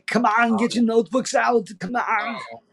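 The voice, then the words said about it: Terrible Arnold Schwarzenegger-style accent. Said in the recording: “my terrible Arnold accent”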